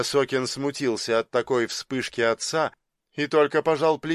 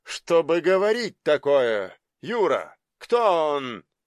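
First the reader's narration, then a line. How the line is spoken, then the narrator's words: Menacing. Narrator (Russian): Грозно спросил он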